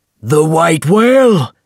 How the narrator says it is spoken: he shouted

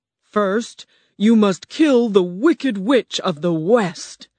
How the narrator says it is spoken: the huge animal roared

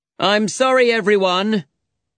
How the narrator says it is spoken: he said loudly

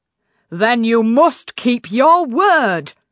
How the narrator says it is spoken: bellowed the king

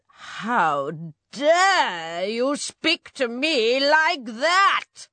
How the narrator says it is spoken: snarled the witch

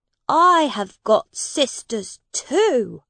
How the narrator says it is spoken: said the prince

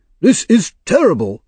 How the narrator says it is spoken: he cried

